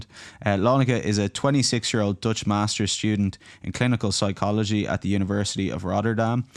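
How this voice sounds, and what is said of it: Irish accent. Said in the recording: “this ridiculous Irish accent”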